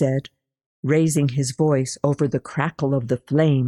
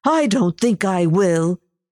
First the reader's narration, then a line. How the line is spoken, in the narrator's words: she shouted back